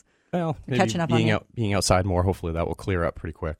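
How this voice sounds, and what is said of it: Deeper, slightly sick voice. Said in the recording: “maybe my voice is a little deeper today because I'm a little under the weather”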